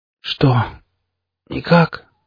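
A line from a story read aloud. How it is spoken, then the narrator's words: Hoarse voice. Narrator (Russian): раздался хриплый голос психа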